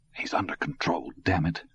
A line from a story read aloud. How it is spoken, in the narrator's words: Todd whispered